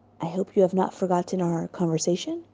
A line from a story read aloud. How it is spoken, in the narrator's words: he whispered